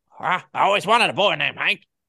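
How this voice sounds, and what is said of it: A bad cartoon character impression. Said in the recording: “that was a bad impression of Cotton”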